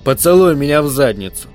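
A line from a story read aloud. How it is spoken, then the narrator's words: Muffled growl. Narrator (Russian): Глазное яблоко с глухим рычанием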